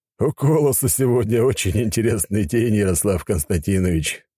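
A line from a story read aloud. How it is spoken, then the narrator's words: Count's sudden laugh. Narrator (Russian): внезапно рассмеялся граф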